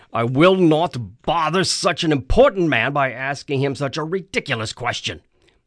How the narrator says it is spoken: he barked

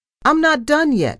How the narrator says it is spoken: I shouted after her

